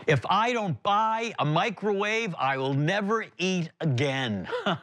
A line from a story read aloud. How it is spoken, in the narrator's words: A voice that came from the other side of the aisle that yelled out